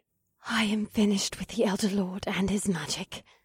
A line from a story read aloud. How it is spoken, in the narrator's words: Samara said in a loud whisper